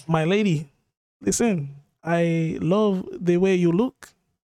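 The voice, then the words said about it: Put-on accent. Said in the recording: “What is this accent you're doing?”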